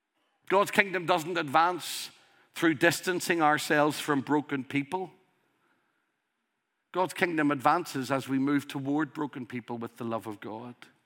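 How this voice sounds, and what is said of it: Strong regional dialect. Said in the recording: “You have a strong accent. ... This isn't an accent, this is a dialect.”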